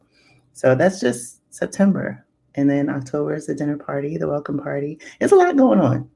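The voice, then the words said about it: Sleepy, not fully awake voice. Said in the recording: “my voice is a little bit of sleepy because I did sneak in a power nap ... my voice isn't completely awake yet ... a little love gravy voice”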